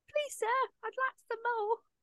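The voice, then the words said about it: Put-on Oliver Twist orphan accent. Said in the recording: “terribly like Oliver accent.”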